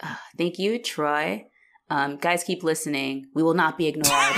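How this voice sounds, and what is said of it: Usual voice. Nothing is said of it.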